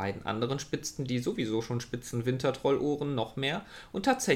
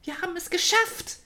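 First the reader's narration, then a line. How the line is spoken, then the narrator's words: Triumphant shout. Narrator (German): rief sie triumphierend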